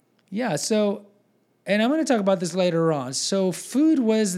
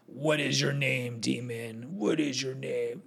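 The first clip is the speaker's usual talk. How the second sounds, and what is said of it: Bad demon voice impression. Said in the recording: “my bad demon impersonation”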